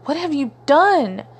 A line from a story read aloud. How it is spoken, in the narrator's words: Fate's shoulders heaved with sobs